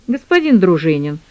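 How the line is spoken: Dry curt interruption. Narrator (Russian): сухо оборвал его на полуслове Алексей

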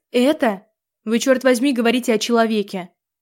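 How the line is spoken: Yelled in fury. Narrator (Russian): Заорала я

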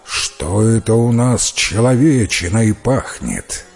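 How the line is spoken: Giant roaring. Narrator (Russian): великан Драк и тотчас зарычал

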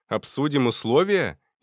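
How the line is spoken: Laughing. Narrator (Russian): я рассмеялся

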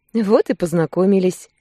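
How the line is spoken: Laughing. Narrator (Russian): рассмеялась

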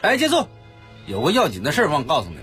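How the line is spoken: Urgent calling out. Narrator (Chinese): 赵多多又急急地呼喊起来说

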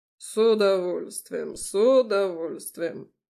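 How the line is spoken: Deep bass. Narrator (Russian): пробасил Олег Петрович

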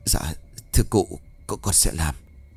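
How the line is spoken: Trembling reply. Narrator (Vietnamese): Cọt liền run rẩy đáp

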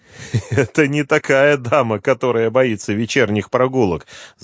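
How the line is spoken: Laughing. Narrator (Russian): засмеялся Романенко

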